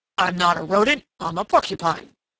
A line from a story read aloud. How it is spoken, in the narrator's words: grunted Prickly Porky indignantly